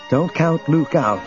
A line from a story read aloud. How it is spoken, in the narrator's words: Leia said tightly